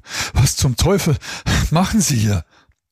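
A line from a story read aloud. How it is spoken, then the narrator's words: Gasping. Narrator (German): keuchte Mehringer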